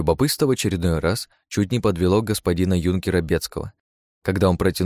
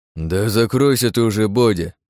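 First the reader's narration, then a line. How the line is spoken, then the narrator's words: Displeased grumble from offstage. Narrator (Russian): недовольно проворчал кто-то из-за угла палатки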